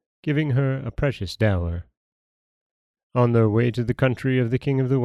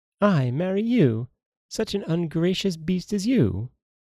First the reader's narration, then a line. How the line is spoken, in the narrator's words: she exclaimed